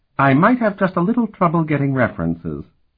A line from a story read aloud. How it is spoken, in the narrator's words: replied, still laughing